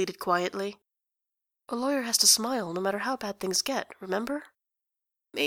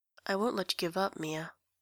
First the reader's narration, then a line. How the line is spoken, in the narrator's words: Phoenix murmured